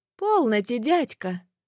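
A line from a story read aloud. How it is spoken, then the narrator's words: Forced cheerful reply. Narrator (Russian): нарочито-бодро ответила девушка, желая утешить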